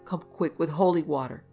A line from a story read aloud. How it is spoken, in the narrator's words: cried